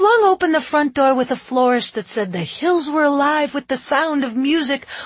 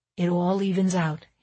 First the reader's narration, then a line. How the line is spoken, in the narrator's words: he said tightly